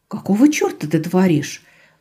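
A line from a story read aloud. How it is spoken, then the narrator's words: Exclamation. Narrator (Russian): воскликнула Рада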